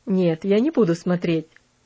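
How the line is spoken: Laughing, teasing. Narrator (Russian): рассмеялся он над ее переживаниями

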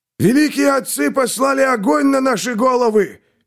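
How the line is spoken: Old man wailing. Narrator (Russian): вопил старик

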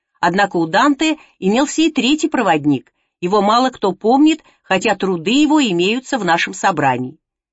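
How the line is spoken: Laughing, catching himself. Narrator (Russian): Он рассмеялся и добавил, словно спохватившись

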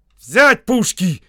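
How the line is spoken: Shouting. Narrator (Russian): крикнул генерал

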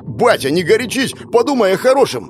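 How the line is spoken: About to shout. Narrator (Russian): Уже хочу заорать

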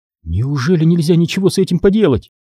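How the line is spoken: Trembling voice. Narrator (Russian): дрожащим голосом произнесла Кира

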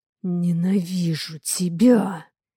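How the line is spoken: Hissed through teeth. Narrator (Russian): Цедит Дима сквозь зубы

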